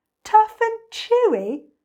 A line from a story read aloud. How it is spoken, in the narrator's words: cried the enormous crocodile